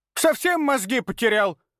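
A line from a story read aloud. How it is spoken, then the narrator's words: Angry bark. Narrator (Russian): рявкнула она, сверкнув глазами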